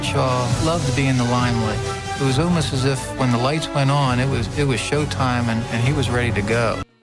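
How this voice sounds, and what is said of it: Soft-spoken with a Yinzer accent. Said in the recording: “he's soft-spoken ... I think there's a Yinzer accent in there ... I hear Yinzer in there.”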